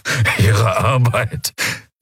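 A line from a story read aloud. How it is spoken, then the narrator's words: Forced laugh. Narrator (German): Thelios produzierte ein Lachen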